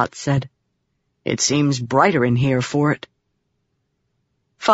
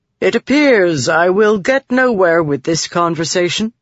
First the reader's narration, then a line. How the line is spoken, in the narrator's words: the messenger said loudly